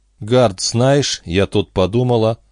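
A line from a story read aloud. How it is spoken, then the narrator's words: Even-voiced start. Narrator (Russian): ровным голосом начала Бобби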